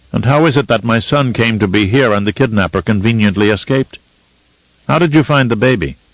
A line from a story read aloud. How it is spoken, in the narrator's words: Leto asked in a suspicious tone